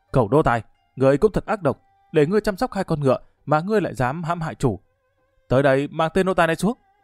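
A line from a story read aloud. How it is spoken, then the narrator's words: Furious shout. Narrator (Vietnamese): cả giận quát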